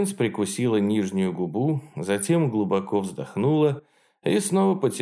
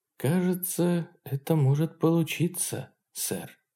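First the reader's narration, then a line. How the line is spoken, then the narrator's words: Quiet. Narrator (Russian): тихо сказала она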